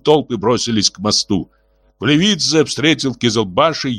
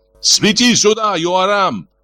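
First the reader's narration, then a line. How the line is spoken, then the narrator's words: Shout. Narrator (Russian): кричал Гиви начальнику факельщиков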